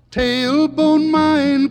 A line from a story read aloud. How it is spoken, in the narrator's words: cried Billy Barlow